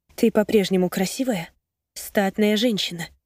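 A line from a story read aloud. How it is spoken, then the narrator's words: Quiet reply. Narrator (Russian): тихо отвечаю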